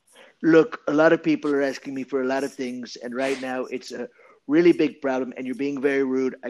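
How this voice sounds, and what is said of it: Donald Trump impression. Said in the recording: “do a Trump impression?”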